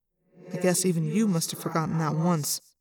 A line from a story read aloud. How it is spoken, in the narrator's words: I muttered